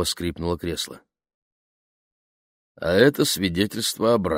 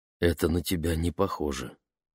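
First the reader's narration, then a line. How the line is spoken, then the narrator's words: Quiet remark. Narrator (Russian): тихо заметила мама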